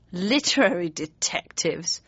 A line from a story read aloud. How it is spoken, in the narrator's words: sneered